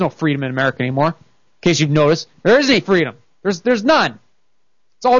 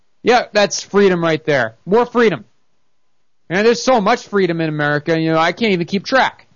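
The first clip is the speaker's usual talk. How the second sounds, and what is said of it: Sarcastic delivery. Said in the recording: “I'm being sarcastic.”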